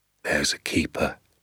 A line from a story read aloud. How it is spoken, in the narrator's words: he said softly